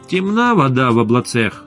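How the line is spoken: Angry pronouncement. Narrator (Russian): Аналитики зло изрекали

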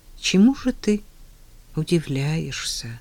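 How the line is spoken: Plain. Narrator (Russian): спросил он себя

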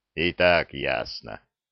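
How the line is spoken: Low booming drone. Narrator (Russian): прогудел Зырк

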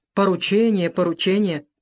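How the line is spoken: Grumble. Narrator (Russian): проворчал Бакрадзе

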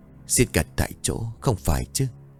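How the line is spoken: Old man muttering. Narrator (Vietnamese): Ông nội bấy giờ lẩm bẩm

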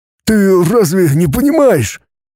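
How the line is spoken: Hoarse exclamation. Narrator (Russian): сипло воскликнул дядя Хуберт

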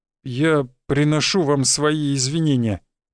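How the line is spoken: Mumble. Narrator (Russian): промямлил тот

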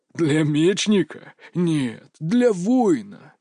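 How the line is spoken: Old man's gruff growl. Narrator (Russian): рыкнул дед

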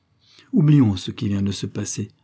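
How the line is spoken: Serious tone. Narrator (French): dit-il d'un ton sérieux

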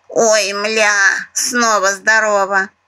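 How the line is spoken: Grumbled under breath, parrot. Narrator (Russian): буркнула себе под клюв попугаиха

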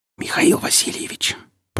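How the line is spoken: Whisper. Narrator (Russian): прошептал Игнат

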